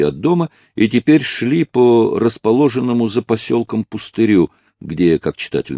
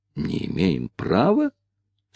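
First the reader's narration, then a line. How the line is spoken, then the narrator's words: Slightly annoyed whisper. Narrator (Russian): с легкой досадой переспросил Ричард, также шепотом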